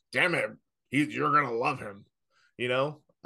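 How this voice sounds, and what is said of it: Imitates another person's voice. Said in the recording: “this is my Vince McMahon impersonation.”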